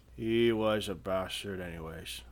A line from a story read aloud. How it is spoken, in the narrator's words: Viekko slurred